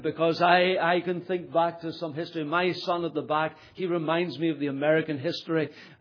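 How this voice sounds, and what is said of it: Northern Irish Ulster accent. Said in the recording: “Maybe you would say his accent is from Ulster, but I'm actually from England ... despite the accent”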